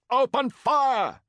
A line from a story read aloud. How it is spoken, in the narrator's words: shouted Antigues